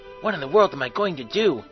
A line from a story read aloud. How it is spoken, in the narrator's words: He muttered